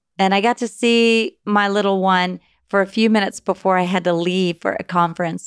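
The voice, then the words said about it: Weak, tired voice. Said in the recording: “my voice is weak”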